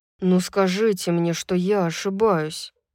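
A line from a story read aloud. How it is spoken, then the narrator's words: Muttered. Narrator (Russian): пробормотал Рун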